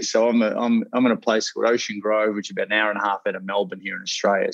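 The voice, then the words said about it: Relaxed Australian accent. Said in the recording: “my Australian accent. It's sort of like English, but a little bit more relaxed”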